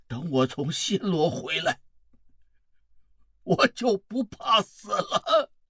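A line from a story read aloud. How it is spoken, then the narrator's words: Old man, coughing, panting, apologetic. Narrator (Chinese): 那位老人又急急地咳嗽了几声，喘着粗气，很抱歉地说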